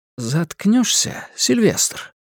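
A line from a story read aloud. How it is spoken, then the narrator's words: Soft, insistent. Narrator (Russian): полюбопытствовал Дэвинс своим мягким напористым голосом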